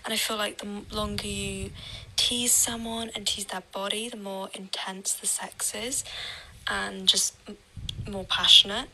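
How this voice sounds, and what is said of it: English accent. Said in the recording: “love the accent ... England ... London”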